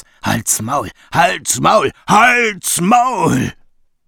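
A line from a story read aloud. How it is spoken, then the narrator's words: Roared. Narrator (German): brüllte Rino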